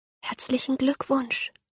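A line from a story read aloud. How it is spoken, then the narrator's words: Whispering. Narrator (German): flüstert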